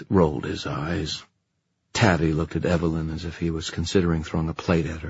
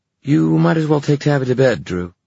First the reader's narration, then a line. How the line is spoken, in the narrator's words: said Libby hastily